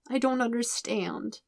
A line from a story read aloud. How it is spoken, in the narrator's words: Aang says miserably